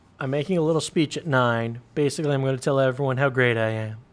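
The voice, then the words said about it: Imitates another person's voice. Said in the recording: “You do such a good imitation.”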